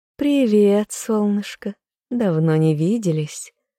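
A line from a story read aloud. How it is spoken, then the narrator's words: Purring young woman. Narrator (Russian): мурлыкнула дочь графа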